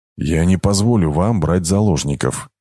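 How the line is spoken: Quiet but clear. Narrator (Russian): тихо, но отчетливо произнес Кейн

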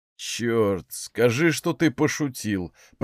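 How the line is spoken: Groaning. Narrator (Russian): простонал он

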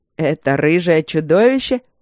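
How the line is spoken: Snide question. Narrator (Russian): ехидно спросил фон Сьедентент

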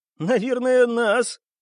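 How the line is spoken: Burst of laughter, abruptly cut off. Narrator (Russian): расхохотался Дик и тут же осекся

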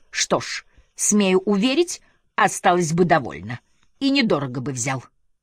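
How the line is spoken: Loud declaration amid laughter. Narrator (Russian): старший лакей громко заявлял при общем смехе окружающих

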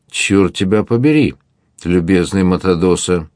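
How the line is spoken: Conciliatory objection. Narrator (Russian): возразил Дон Торибио примирительным тоном

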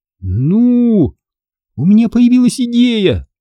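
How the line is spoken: Excited breathless interruption. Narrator (Russian): перебила Эмили, взволнованно дыша

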